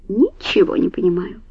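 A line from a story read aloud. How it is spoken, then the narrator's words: Muttering under breath. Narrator (Russian): пробормотал себе под нос первый помощник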